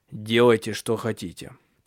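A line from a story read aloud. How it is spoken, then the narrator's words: Dull, flat voice. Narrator (Russian): тусклым голосом произнес Тенгель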